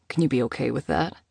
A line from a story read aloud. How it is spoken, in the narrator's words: She sighed